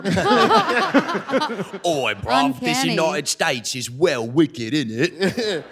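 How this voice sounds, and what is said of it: Put-on British accent. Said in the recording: “that was a perfect British person”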